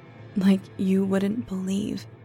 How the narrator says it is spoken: sighed

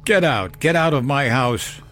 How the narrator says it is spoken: shouted, though my voice was still weak

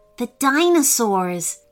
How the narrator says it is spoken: said Hanifa, clutching his fists tightly

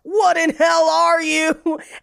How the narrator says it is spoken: he just screams

